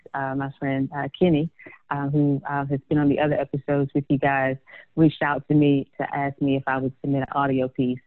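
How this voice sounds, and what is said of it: Country southern US accent. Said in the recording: “my country southern accent would kind of get drowned out with all these New York accents”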